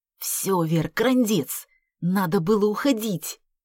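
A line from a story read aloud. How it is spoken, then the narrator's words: Whisper. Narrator (Russian): шепнул Артем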